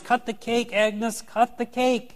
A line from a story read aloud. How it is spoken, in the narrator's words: Everyone cheers and yells